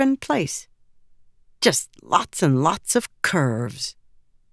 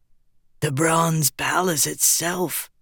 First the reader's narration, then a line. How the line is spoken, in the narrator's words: Hukin breathed